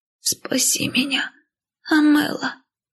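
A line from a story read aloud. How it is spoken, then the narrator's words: Hoarse whisper. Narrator (Russian): Хриплый шепот сестры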